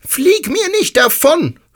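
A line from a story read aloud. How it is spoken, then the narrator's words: Called out. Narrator (German): rief ich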